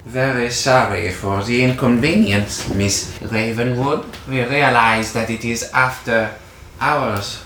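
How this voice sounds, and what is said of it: Put-on German accent. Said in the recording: “doing a German accent”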